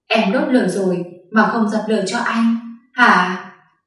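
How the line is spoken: Husky. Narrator (Vietnamese): Hắn nói bằng chất giọng khàn khàn

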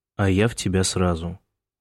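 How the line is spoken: Sighing. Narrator (Russian): вздохнул Майкл

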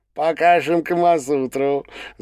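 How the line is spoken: Laughing. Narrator (Russian): засмеялся Валет

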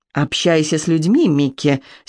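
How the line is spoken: Angry voice. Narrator (Russian): сердитым голосом произносит он

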